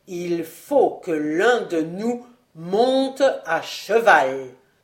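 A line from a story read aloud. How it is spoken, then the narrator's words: Slow, emphatic. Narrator (French): prononça-t-il lentement et en appuyant sur chaque mot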